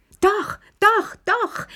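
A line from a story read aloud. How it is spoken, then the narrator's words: Shouting, clapping hands. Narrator (German): schrie und klatschte dabei in die Hände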